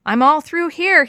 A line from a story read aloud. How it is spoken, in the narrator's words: shouted